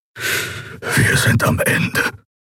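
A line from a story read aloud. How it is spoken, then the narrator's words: Whisper. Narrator (German): flüsterte Kero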